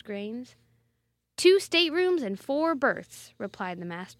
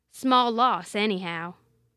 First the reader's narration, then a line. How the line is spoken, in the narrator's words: growled the captain